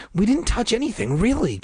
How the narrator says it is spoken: Casey exclaimed

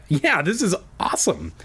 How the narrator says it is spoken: he exclaimed

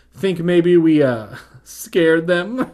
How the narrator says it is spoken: Hannah said, laughing

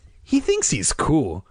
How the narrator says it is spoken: Greg said, laughing at her imitation

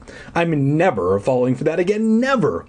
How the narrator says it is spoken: I cried

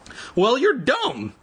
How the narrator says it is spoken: Evan cried

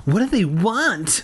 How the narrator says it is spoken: Tabby cried

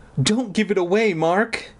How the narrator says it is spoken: Aunt Benna pleaded

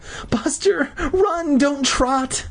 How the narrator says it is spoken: Mindy begged

